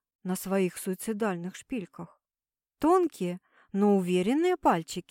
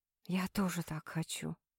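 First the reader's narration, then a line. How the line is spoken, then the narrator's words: Whisper. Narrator (Russian): прошептал Дежнев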